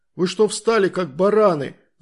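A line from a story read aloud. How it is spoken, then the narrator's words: Shouting. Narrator (Russian): закричал он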